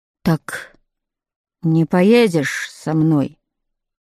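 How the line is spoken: Sudden dejected question. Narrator (Russian): спросил он вдруг упавшим голосом

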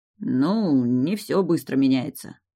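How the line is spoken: Grumbling. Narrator (Russian): пробурчал

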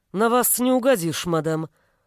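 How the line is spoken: Grumbling. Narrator (Russian): буркнул Олег

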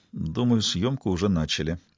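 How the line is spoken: Quiet. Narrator (Russian): Робинсон тихо добавил

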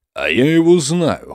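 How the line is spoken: Snort. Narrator (Russian): хмыкнул он

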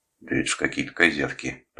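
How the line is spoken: Contemptuous, through teeth. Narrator (Russian): презрительно процедил он

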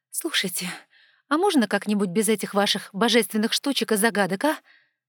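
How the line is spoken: Irritated pleading. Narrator (Russian): возмолилась я раздраженно

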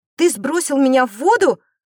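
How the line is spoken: Shout. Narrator (Russian): закричала Эрлиса

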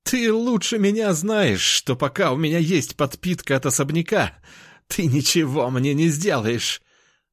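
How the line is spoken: Loud laughter. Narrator (Russian): расхохотался эльф в магическом пузыре

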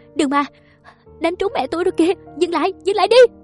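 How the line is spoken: Sobbing scream. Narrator (Vietnamese): Tôi khi ấy chỉ biết khóc thét

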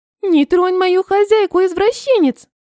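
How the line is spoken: Squeaky. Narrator (Russian): пискнула Ванилька

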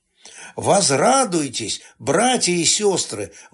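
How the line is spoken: Teacher's joyful exclamation. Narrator (Russian): воскликнул учитель

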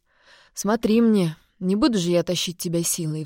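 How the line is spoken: Sighing father. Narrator (Russian): вздохнул отец

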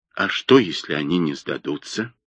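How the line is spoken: Trembling voice. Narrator (Russian): Джипа дрожащим голосом сказал

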